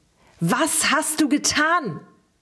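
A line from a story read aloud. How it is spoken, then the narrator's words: Shouted again. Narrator (German): schrie er erneut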